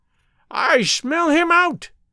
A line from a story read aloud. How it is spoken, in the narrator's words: she shrieked